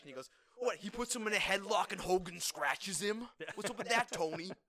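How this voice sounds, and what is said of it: Imitates another person's voice. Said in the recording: “my favorite Jesse impression”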